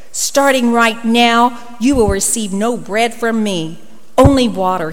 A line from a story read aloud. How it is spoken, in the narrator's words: growled